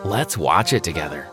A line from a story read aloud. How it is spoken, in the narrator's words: I said in my most flirtatious voice